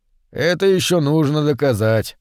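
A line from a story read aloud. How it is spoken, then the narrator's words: Gloomy. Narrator (Russian): мрачно сказал Мэн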